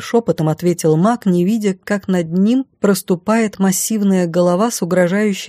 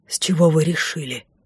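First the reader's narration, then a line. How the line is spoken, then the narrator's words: Surprised whisper. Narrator (Russian): Также шепотом удивился он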